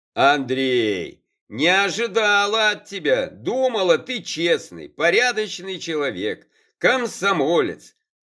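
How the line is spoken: Ringing shout. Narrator (Russian): Звенящим голосом выкрикнула в лицо братцу Аллочка

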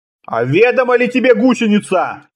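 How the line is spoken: Booming intimidating bark. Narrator (Russian): гаркнул мудрец, стараясь придать голосу побольше устрашения

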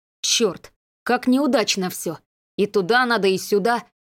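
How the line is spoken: Excited muttering. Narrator (Russian): возбужденно бормотал Леня

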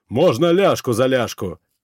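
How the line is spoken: Loud bellow. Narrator (Russian): гаркнул жирный рогатый демон

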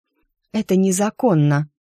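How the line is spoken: Hoarse. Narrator (Russian): почему-то хрипло сказала она

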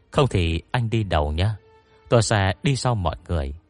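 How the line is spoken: Sighing. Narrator (Vietnamese): Dương Kiêu thở dài

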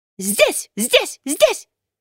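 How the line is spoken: Loud, rapid chattering. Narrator (Russian): сорока, громко тараторя

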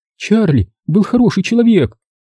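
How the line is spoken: Tearful proclamation. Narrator (Russian): возвестила она сквозь слезы

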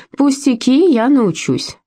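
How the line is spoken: Cheerful assurance. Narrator (Russian): бодро заверила она

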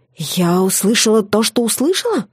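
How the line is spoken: Hissing. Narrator (Russian): Зашипела я

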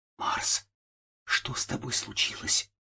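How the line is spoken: Horrified whisper. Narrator (Russian): прошептала я в ужасе

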